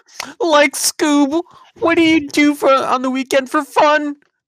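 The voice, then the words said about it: Cartoon character impression, Shaggy voice. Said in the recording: “your Scooby Doo and Shaggy impersonation”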